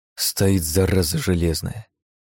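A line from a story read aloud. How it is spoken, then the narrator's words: Muttered. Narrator (Russian): пробормотал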